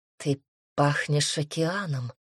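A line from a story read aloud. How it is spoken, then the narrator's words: Whispered. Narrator (Russian): шепнул Асур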